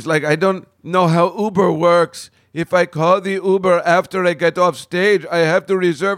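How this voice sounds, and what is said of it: Poor imitation of another person's accent. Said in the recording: “I'm doing a horrible accent, but he's got an accent.”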